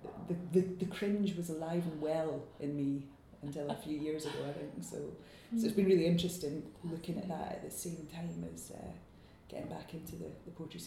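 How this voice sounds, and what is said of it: Scottish accent. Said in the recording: “I'd better get rid of this accent, hadn't I? ... So I'm trying to reclaim my own accent”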